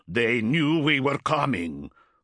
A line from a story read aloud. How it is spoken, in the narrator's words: Bryngar growled